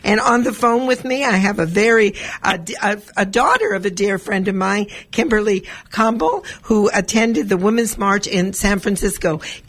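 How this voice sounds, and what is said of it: Raggedy, slightly hoarse voice. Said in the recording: “my voice is a little bit raggedy this morning because I was at the community engagement fair and talked to maybe 600-700 people yesterday”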